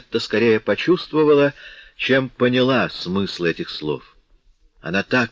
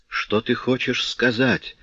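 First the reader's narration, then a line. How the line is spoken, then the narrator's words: Whispered. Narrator (Russian): прошептала она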